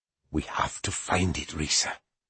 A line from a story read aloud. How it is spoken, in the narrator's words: Dustfinger whispered